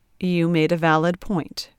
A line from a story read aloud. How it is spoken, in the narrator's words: Trent replied smoothly